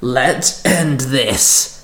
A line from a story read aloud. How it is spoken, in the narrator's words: Kiva growled